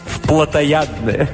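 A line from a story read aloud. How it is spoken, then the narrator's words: Laughing. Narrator (Russian): Аля рассмеялась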